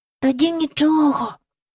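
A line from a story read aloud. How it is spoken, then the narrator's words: Whispering. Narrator (Ukrainian): прошепотів Майкл до Джейн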